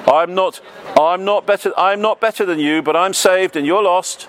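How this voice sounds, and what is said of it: Shouting. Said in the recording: “why are you shouting at me?”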